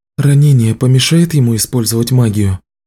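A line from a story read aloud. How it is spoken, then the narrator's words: Sighing. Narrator (Russian): Шейла вздохнула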